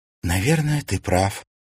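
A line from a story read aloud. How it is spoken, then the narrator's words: Sigh. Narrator (Russian): вздохнула Алиса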